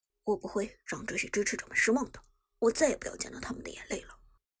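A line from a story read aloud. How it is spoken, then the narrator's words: Low quiet voice. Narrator (Chinese): 苏哲低声说道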